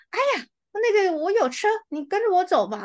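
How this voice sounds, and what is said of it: Raised, younger, shrill imitated voice. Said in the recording (Chinese): “你声音要高八度 ... 因为他就是那种呃山东姑娘，所以他讲话的语气稍微嫩一点、尖一点这样子。我就在学他说话”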